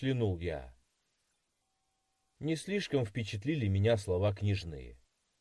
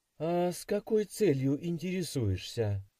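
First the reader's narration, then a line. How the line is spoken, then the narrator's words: Playful. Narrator (Russian): весело прищурилась Мария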